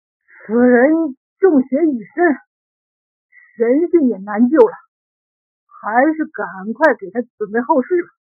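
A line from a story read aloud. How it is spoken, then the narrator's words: Breathless, panting speech. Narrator (Chinese): 巫师喘着粗气说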